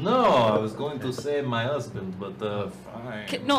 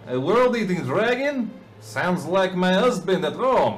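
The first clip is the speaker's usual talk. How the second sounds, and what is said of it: Put-on theatrical character accent. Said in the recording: “say it in your accent ... Now we're Tevye from Fiddler on the Roof ... The Count, I think ... And the Count mixed with the Count”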